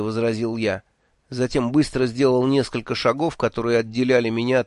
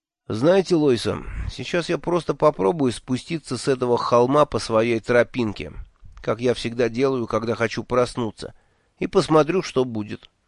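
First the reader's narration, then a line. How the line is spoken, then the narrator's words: Plain. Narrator (Russian): наконец сказал я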